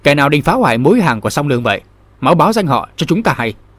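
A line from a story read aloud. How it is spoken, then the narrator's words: Loud barking shout. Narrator (Vietnamese): một người trong bọn lớn tiếng quát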